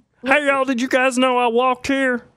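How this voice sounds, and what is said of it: Imitates another person's voice. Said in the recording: “Hey, that's a pretty good impression. ... A little you need some more deepness to that.”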